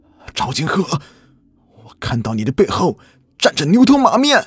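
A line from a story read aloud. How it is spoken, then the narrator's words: Desperate, strained shout. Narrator (Chinese): 他满脸不甘的，艰难的，绝望的喊道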